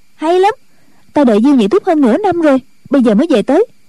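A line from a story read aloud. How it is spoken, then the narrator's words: Joyful exclamation. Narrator (Vietnamese): Chu Cửu Chân cả mừng, reo lên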